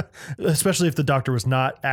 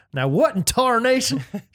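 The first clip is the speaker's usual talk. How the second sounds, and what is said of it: Put-on hillbilly accent. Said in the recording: “anything in a hillbilly accent ... acting hillbilly”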